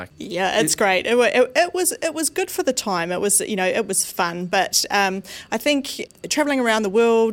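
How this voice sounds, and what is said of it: Slight New Zealand accent. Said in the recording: “you have a slight accent there ... I am from New Zealand”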